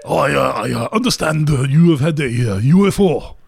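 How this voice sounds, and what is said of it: Put-on Japanese accent. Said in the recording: “do a very racist voice ... It's gonna be Japanese.”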